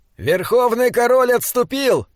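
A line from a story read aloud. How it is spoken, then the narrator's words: Shouting. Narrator (Russian): закричал Диорнот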